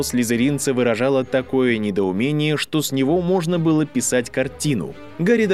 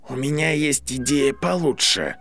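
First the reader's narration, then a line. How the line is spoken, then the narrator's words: Hissing, large male. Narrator (Russian): прошипел крупный слизеринец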